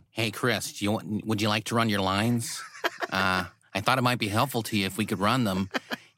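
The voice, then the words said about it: Randall Park impression. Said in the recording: “your great Randall Park impression”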